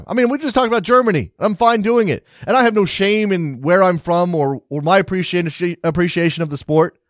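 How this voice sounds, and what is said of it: American accent. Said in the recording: “I'm an American soccer fan with an American accent”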